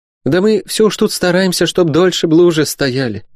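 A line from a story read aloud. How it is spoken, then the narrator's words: Sighing. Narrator (Russian): вздохнула Добронега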